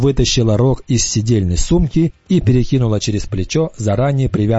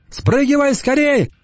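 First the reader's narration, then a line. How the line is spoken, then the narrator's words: Shouted. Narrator (Russian): закричала Анана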